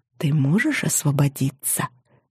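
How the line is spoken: Whisper. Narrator (Russian): прошептала я

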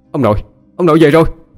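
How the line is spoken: Joyful cry. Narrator (Vietnamese): Tôi mừng trở kêu lên

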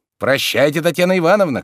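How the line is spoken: Called after, coachman. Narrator (Russian): крикнул еще вслед кучер

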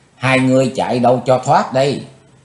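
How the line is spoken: Distant scream. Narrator (Vietnamese): Tiếng thét nổi lên quỷ nữ Mộc Liên Anh cách xa chừng 10 trượng

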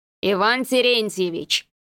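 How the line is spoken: Warning tone. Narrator (Russian): предостерегающим тоном проговорил с заднего сиденья Кондратий

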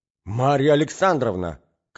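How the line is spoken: Shouting, flushed. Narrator (Russian): кричал Мозгляков, в свою очередь покраснев как рак

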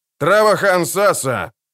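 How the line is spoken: Sharp reply. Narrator (Russian): резко отозвался Джози

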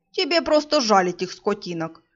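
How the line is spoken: Snorting ghost. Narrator (Russian): фыркнул призрак

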